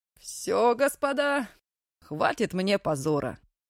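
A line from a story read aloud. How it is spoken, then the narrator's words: Firm announcement. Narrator (Russian): Наконец объявил Вересов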